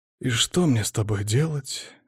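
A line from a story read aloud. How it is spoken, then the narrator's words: Sighing. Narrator (Russian): Я вздохнул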